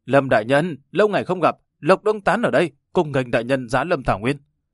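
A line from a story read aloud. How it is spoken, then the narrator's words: Stiff accented shout. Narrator (Vietnamese): dùng tiếng đại hoa với ngữ điệu cứng ngắc hét lên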